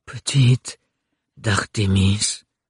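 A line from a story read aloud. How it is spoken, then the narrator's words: Bewildered murmur. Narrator (French): murmura-t-il d'une voix déboussolée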